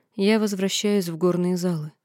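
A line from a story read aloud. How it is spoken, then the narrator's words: Tired. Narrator (Russian): устало произнесла я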